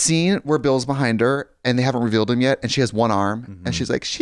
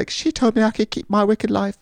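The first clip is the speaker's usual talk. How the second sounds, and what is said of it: Put-on British accent. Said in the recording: “That's not her accent at all. She's not British. I don't know why I did that.”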